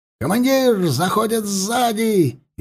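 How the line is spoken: Frantic yell. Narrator (Russian): Истошно выкрикнул заместитель сотника Климент

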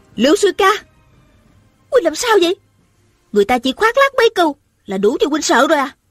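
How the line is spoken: Angry question. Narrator (Vietnamese): A giận dữ hỏi

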